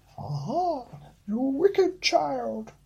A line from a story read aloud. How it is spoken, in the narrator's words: cried the Enchantress